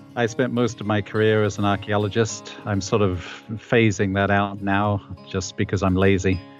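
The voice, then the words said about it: English accent. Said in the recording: “a 69-year-old former Englishman, as I guess most of your listeners can probably tell. I still haven't managed to lose my accent.”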